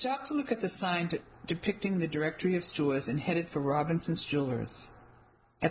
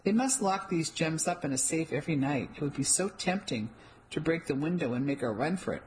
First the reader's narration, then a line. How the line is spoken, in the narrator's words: I said with a laugh